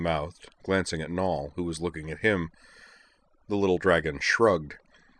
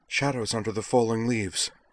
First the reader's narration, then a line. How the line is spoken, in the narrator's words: she gasped, blocking frantically